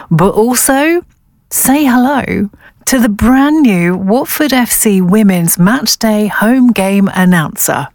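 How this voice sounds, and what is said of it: Worn-out, lost voice. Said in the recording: “this is where my voice has gone. I've left it in Casterbury Park, so please do forgive me.”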